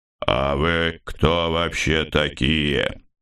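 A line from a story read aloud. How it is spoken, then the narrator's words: Bishop's deep-breath shout. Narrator (Russian): Епископ, вздохнув, набрав в грудь побольше воздуха, выкрикнул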